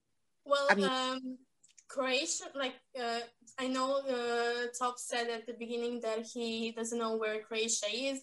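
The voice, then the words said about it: Beautiful accent, fluent English. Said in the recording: “how beautiful your accent is? ... how perfect your English is”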